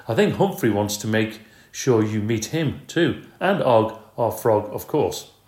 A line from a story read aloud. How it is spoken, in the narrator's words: Brisbane laughed and said